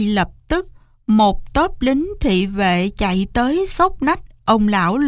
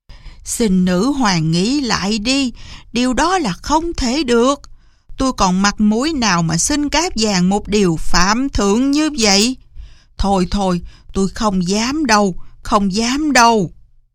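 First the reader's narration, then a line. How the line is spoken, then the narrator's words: Frightened frantic pleading, old man. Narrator (Vietnamese): ông lão xanh mặt ... van xin rối rít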